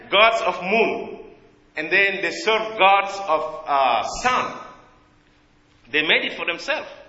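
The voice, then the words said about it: Heavy non-native English accent. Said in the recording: “I have a heavy accent”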